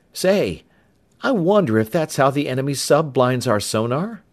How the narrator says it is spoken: Suddenly, Tom exclaimed aloud

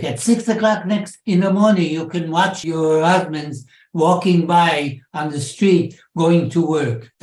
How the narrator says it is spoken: In translation, he yelled back

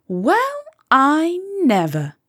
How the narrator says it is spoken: her mum exclaimed proudly

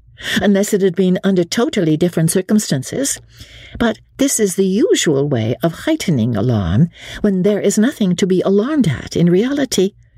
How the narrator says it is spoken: cried Marianne

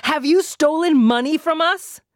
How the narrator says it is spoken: she shouted again

